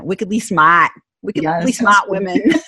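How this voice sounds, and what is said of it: Put-on Boston accent. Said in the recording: “I'm from New England, so I figured I'd play on the Boston accent.”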